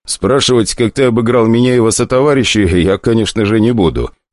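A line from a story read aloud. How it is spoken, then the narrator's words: Chuckling. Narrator (Russian): он хохотнул, вспоминая их лица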